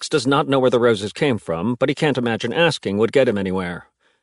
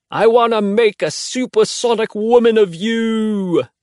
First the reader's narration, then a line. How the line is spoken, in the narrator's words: Henry shouts